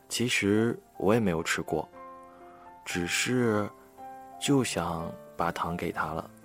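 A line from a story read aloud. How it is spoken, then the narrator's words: Murmuring. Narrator (Chinese): 小白兔喃喃地说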